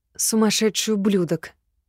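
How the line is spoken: Angry whisper. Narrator (Russian): Зло прошептала

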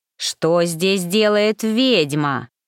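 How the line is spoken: Growling. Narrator (Russian): прорычал

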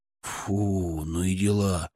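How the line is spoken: Drawn-out drawl. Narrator (Russian): протянул Славик

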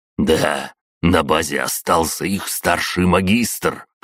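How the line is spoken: Through gritted teeth. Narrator (Russian): процедил Петя

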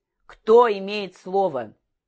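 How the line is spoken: Loud question. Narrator (Russian): атаман громко спросил

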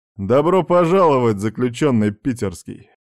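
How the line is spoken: Nervous laughing speech. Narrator (Russian): Архип нервно засмеялся

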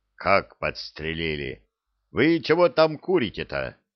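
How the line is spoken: Menacing question, commander. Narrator (Russian): грозно спросил командир

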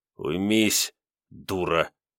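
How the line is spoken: Through clenched teeth. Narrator (Russian): процедил сквозь твердо сжатые зубы

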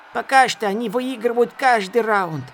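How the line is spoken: Boy yelling loudly. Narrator (Russian): заорал мальчишка на ухо Дорину

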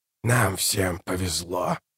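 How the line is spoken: Muttered. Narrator (Russian): пробормотал Калор

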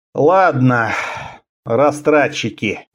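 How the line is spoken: Sighing. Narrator (Russian): вздохнул Страбонус

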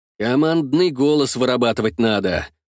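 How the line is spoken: Grumbling. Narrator (Russian): пробурчал я

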